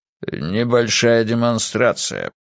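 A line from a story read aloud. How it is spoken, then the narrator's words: Gruff mutter. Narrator (Russian): буркнул Зумуррут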